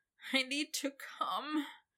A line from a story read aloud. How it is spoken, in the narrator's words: he whined